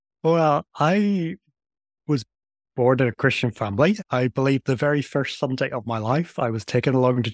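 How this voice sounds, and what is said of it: Northern Irish accent. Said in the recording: “I come from Northern Ireland, which is why I have a strange accent that everyone immediately notices ... I absolutely love your accent as well. It's amazing.”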